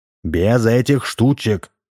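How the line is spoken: Stern. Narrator (Russian): строго проговорил Дегустатов

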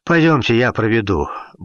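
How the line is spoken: Flat, slightly glum offer. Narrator (Russian): буднично и несколько уныло предложил капитан

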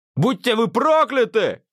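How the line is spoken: Shouted. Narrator (Russian): кричал он

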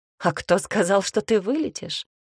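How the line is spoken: Amused snort. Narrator (Russian): Хмыкнул он

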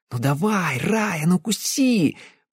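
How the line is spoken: Hissing. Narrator (Russian): шипела она

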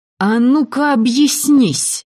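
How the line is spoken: Hissing. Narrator (Russian): зашипела

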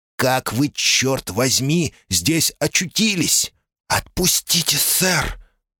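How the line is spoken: Hissing. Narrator (Russian): прошипела Кэт

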